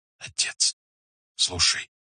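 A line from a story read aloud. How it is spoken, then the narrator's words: Whisper. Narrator (Russian): прошептали губы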